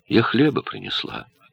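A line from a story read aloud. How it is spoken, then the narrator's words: Quiet. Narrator (Russian): сказала Турит тихо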